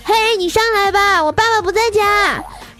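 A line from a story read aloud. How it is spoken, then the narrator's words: Calling down from balcony. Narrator (Chinese): 我就站在我们家阳台上朝下喊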